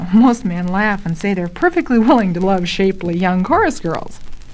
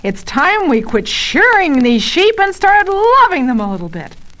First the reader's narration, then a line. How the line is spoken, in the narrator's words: Barton yells